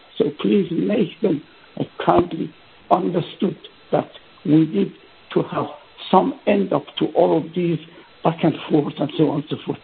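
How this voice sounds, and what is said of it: Weak, strained voice. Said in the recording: “Sorry, my voice was weak. If you have not heard that, I apologize for that.”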